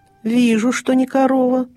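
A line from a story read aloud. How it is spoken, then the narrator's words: Muttering beast. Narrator (Russian): пробурчал незнакомый зверь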